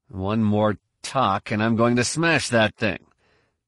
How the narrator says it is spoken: growled

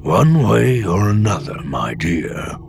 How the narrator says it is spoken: the old Bothan had rumbled

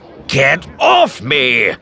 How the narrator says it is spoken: Pressick shouted, struggling to shake him off

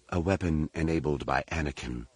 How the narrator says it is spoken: Leia said quietly

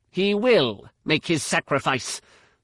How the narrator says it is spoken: Lumia snapped

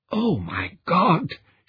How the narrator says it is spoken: wheezed

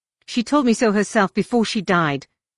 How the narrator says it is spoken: she snapped

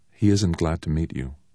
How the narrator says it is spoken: Petra said quietly

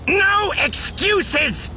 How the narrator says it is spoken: Beck was shouting

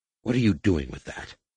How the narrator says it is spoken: Rapung snarled

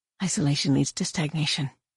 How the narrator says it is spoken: he whispered

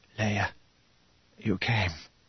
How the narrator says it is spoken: Mon Mothma whispered

